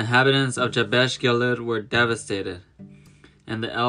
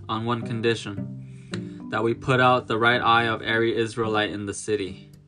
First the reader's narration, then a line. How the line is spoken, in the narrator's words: he announced coldly